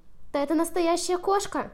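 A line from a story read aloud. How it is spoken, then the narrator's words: Frightened mouse squeak. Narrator (Russian): пискнул испуганный мышонок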